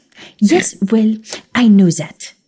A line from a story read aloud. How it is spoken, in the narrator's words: she snapped